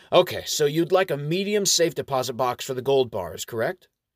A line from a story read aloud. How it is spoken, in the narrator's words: The dwarf clerk still chuckling to himself, and says